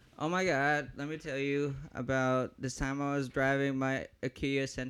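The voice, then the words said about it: Put-on stereotyped gay voice. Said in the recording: “it doesn't work if you actually do a gay voice”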